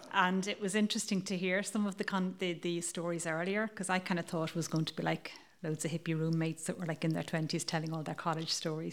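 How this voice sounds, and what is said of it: Irish accent. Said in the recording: “as you can probably tell from my accent, I'm Irish”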